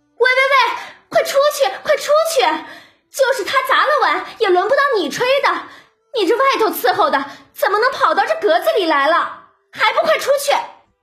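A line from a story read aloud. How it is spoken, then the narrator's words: Hurried shout. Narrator (Chinese): 晴雯忙喊了起来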